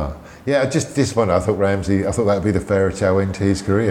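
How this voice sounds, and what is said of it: Usual voice. Nothing is said of it.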